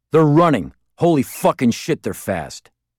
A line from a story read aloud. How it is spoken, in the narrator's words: I heard him shout